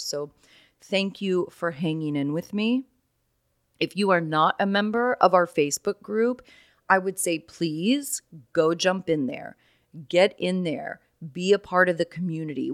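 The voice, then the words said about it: Hoarse, raspy voice. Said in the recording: “my voice is just a little bit hoarse... I guess my voice was always super raspy and like hoarse”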